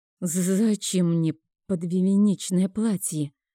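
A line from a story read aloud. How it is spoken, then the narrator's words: Trembling, hopeful question. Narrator (Russian): дрожащим голосом спросила я, надеясь именно на тот ответ, который заставит мою душу петь от счастья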